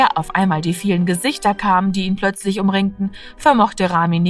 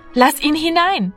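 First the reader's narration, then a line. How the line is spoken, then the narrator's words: Calling out. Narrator (German): rief Martina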